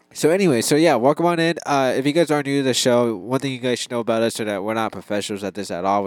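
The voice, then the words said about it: Voice sounds a little weird. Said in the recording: “I have really bad allergies, like super bad, and so my voice may sound kind of weird and different ... my voice is a little weird because I just have really bad allergies”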